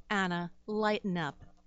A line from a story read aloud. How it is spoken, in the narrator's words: Fielding said